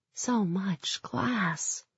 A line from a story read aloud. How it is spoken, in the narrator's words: I whispered, my head reeling